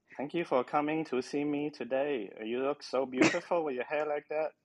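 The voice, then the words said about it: Put-on accent. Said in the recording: “maybe I should start doing episodes with just that accent”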